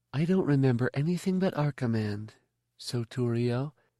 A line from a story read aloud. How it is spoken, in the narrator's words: Sallow said in her soft voice, smiling